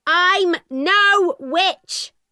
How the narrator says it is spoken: my mother shouted

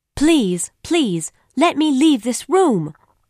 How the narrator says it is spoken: screamed

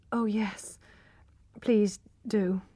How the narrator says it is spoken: murmured Tess, too tired to be afraid of him

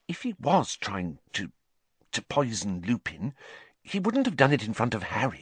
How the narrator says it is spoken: Hermione dropped her voice, glancing nervously around

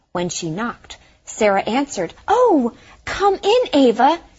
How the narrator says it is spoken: she exclaimed happily

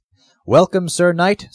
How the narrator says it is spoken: said the porter

